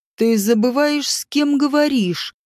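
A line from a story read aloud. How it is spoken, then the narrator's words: Uncertain, through gritted teeth. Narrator (Russian): процедил сквозь зубы, но процедил как-то неуверенно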